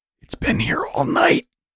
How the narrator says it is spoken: Angelo hissed

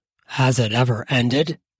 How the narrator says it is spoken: He sighs heavily like he just came

